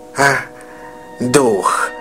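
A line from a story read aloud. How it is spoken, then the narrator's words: Broken voice. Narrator (Russian): произнес Крудж надломленным голосом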